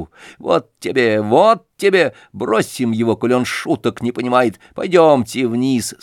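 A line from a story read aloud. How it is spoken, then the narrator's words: Forced laugh. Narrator (Russian): сказал Сережа, неестественно засмеявшись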